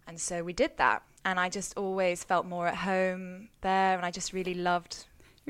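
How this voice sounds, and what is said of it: English accent. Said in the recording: “Your accent worked better there ... people like the accent here too ... people... can't understand you”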